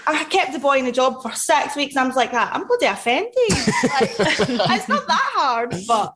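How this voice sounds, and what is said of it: Very strong regional accent. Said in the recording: “Your accent is super strong, though ... Super strong ... I'm struggling to understand what you're fucking saying ... we're gonna have to subtitle”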